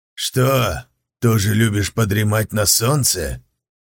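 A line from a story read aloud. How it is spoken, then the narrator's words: Grumbling. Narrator (Russian): проворчал хозяин хвоста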